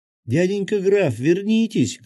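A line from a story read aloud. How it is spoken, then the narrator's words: Shouting. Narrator (Russian): крикнула Маришка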